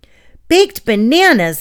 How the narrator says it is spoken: Ellie exclaimed

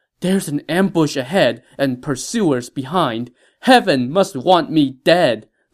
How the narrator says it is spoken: Liu Bei cried out in lament

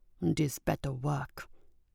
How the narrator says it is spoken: mumbled under his breath

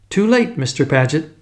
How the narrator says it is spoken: she said cheerfully

